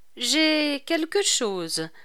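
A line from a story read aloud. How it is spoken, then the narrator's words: Sighing. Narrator (French): reprit-il en poussant son soupir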